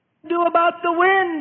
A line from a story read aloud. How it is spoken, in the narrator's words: Peter shouts back sharply